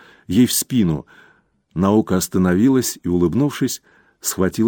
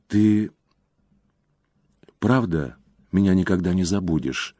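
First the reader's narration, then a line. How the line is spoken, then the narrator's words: Near whisper. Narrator (Russian): тихо, почти шепотом спросила она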